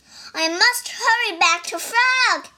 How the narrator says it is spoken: he cried

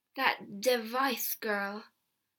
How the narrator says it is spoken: John Law said slowly

